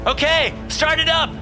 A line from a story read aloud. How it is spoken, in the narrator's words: I shouted